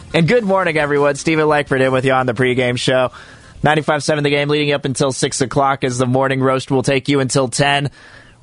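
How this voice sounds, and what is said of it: Hoarse, partly lost voice. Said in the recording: “my voice is a little bit gone still. I'm hoping it'll be back to normal by tomorrow”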